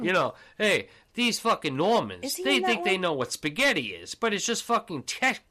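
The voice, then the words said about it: Ray Liotta Goodfellas accent impression. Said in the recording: “he's talking with his fucking Goodfellas accent”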